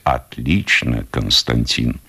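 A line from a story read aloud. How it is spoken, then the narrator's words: Shaken tearful whisper. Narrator (Russian): потрясенный увиденным, важный гость шепчет сквозь слезы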